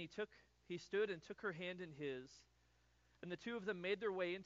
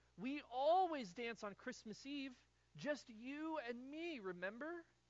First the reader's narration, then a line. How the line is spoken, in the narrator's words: Madeline pleaded